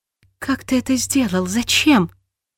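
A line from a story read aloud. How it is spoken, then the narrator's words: Whispered. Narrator (Russian): прошептала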